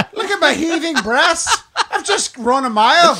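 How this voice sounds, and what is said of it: Put-on Irish girl accent. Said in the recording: “We finally found an accent you guys can do. ... Irish girl”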